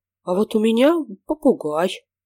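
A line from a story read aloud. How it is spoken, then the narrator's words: Began timidly, female. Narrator (Russian): робко начала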